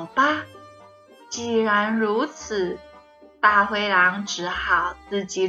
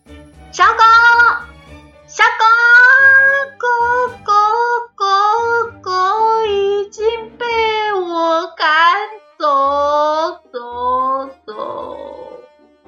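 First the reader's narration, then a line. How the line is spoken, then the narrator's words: Wolf shouting. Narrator (Chinese): 大灰狼继续喊着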